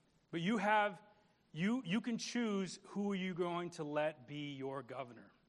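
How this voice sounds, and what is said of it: Usual voice. Nothing is said of it.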